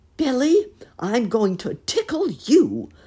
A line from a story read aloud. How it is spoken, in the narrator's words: laughed Uncle Wiggily in his jolly voice